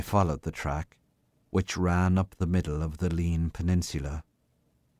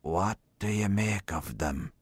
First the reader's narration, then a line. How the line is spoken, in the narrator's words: whispered confidentially